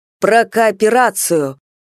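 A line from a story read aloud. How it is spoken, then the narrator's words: Hoarse throat-clearing. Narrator (Russian): хрипло откашлялся Степан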